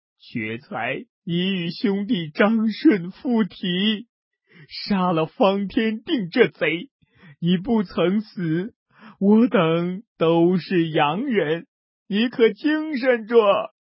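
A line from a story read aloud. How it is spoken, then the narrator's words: Crying. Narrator (Chinese): 宋江哭道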